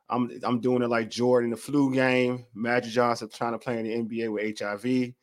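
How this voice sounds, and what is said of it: Hoarse voice. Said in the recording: “I sound a little hoarse, it's because I have a little cold.”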